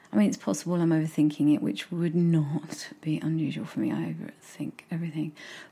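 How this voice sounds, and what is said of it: Non-RP accent, dropped consonants. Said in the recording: “might not speak with received pronunciation ... my accent and how I drop certain consonants”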